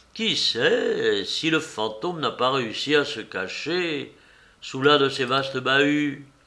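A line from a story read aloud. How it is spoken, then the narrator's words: Suddenly interested tone. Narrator (French): Chantecoq fit d'un ton subitement intéressé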